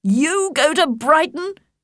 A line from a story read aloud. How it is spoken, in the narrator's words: cried her father